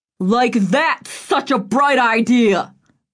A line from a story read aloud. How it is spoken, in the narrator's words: Roy leaned over him, shouting